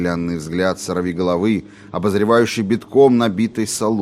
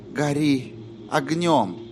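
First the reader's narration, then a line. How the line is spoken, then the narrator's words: Whisper. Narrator (Russian): прошептала Корделия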